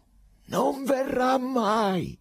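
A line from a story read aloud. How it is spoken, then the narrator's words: Sudden terrible shout. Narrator (Italian): gridò un tratto Pilato con voce così terribile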